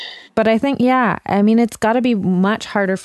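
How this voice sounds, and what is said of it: Usual voice. Nothing is said of it.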